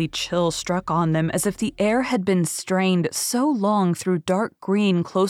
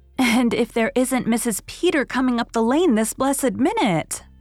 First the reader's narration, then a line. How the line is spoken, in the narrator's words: exclaimed Mrs